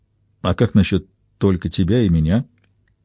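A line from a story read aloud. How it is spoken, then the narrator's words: Soft and tender. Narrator (Russian): прозвучавшее так мягко и нежно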